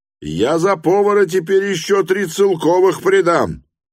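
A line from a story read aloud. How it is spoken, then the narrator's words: Overly loud insistent voice. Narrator (Russian): громко подхватил другой голос, слишком даже громко, громко с настойчивостью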